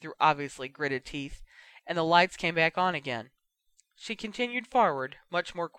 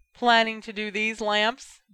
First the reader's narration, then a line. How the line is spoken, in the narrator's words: Bill asked loudly